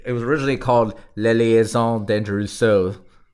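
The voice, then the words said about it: Terrible put-on French accent. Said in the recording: “my terrible, terrible French accent.”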